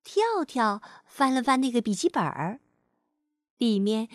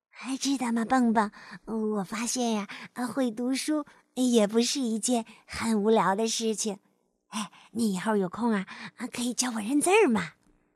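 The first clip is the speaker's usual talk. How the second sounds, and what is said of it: Quiet, soft-spoken voice. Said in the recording (Chinese): “跳跳很小声地说”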